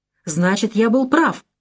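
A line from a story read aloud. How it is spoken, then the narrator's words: Exclaimed. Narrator (Russian): воскликнул Андре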